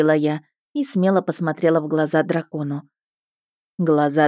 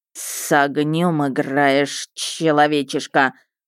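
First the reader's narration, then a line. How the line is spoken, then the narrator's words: Menacing hiss. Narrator (Russian): прошипел он грозно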